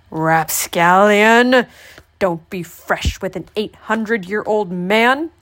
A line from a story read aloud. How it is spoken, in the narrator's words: snapped the old man